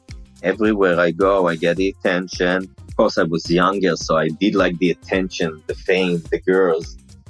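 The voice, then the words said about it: Deep mumbling voice, Israeli accent. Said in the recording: “you sound just like him. You have the same voice. ... My accent is like because of the Israeli language. So I have the accent and the mumbling and my deep voice.”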